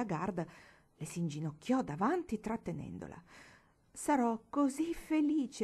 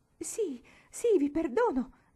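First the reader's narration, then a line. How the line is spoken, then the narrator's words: Exclamation. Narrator (Italian): esclamò Marigold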